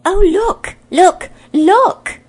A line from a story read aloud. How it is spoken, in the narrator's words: cried Jill